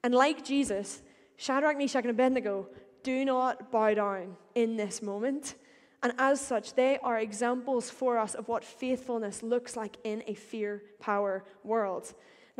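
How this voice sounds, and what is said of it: Northern Irish accent. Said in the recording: “my accent ... I will say power like any good Northern Irish person again”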